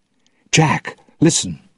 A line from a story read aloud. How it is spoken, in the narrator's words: Will said urgently